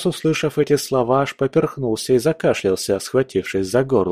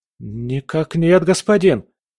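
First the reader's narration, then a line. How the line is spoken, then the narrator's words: Frightened babbling boy. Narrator (Russian): испуганно пролепетал парнишка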